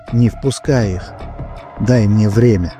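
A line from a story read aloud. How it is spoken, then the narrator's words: Tender whisper close to ear. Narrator (Russian): нежный, знакомый голос прошептал над самым его ухом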